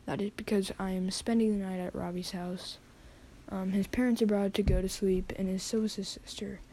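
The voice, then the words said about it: Whispering. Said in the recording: “you're gonna notice that we are whispering ... things are gonna be quite silent”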